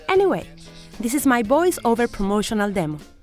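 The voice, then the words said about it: Spanish-speaker's accent in English. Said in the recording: “what you are hearing now is a sample of my accent in English ... my mother tongue, which is Spanish”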